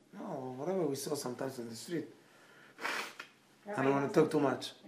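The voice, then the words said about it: Strained, unwell-sounding voice. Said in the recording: “My voice is not good”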